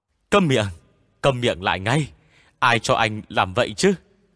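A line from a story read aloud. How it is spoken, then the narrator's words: Panicked yelling. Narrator (Vietnamese): Hách Chính Nghĩa hốt hoảng gào lên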